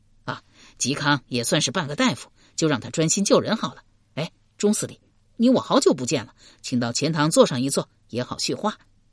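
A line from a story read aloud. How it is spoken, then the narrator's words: Hurried, worried peacemaking. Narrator (Chinese): 刘伶担心他为人锋利，一怒之下会对嵇康不利，忙圆场道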